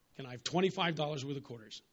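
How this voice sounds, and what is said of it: Put-on American accent. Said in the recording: “I flip in an American accent”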